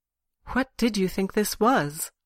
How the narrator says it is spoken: she asked quietly

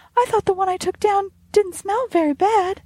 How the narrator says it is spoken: she exclaimed

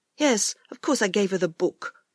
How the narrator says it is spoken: he answered crossly

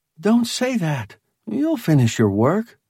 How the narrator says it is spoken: Holly told him soothingly

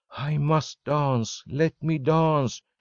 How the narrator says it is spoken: she gasped

